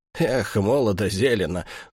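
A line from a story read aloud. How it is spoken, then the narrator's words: Sighing. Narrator (Russian): вздохнул Патрикеев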